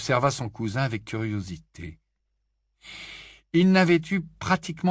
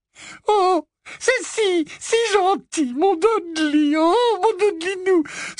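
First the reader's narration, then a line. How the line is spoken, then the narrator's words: Sobbing, muffled. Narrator (French): sanglota-t-elle, la tête enfouie dans la poitrine massive de son fils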